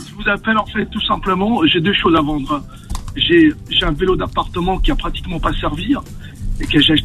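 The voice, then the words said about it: Southern French accent. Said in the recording (French): “J'aime bien ton accent, t'as un accent corse, non? ... Nîmes, un peu du sud”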